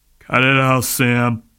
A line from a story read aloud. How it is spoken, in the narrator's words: Tom, glowering, grumbled